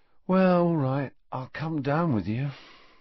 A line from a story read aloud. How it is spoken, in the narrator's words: sighed Ron